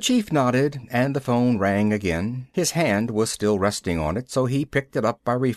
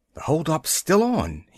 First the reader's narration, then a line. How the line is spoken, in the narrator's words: finally gasped